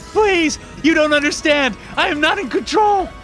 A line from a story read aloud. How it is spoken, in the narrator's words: he screamed